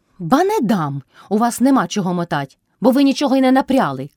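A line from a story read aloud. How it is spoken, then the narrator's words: Loud shout filling the house. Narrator (Ukrainian): крикнула й собі на всю хату Мотря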